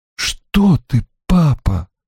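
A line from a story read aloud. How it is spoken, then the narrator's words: Terrified whisper. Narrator (Russian): в ужасе прошептала его дочь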